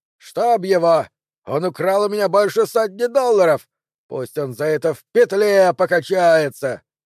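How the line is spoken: Lumberjack suddenly shouting. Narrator (Russian): Один из лесорубов вдруг встал и закричал

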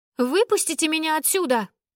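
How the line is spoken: Yelling, pounding on glass. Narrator (Russian): заорала я, барабаня руками по стеклу

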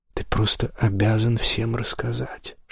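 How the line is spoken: Whisper. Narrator (Russian): шепнула она

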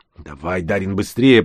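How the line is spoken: Hissing into ear. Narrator (Russian): прошипел я ему в ухо

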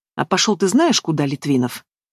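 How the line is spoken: Calm voice. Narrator (Russian): Алиса, спокойно прозвучал ее голос

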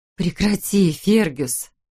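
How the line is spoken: Pleading. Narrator (Russian): взмолилась Мэри

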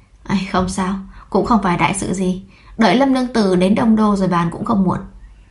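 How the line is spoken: Pausing, sighing. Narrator (Vietnamese): Lăng Chi Nhan khựng lại thở dài

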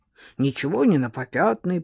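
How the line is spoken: Grumbling. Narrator (Russian): проворчал Маркиз

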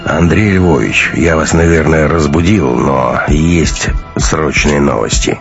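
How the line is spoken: Grim. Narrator (Russian): мрачно сказал генерал

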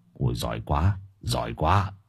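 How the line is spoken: Distant muttering. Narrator (Vietnamese): Lão Luận đứng xa cũng lẩm bẩm

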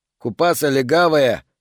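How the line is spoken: Shouted by a big youth. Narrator (Russian): выкрикнул самый высокий и плотный из парней

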